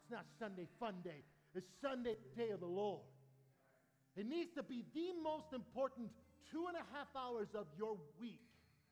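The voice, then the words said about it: Yelling, loud emphatic preaching. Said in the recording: “stop yelling?... I don't want to yell.”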